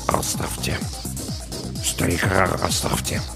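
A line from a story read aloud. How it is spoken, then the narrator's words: Mutter. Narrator (Russian): Саакас пробормотал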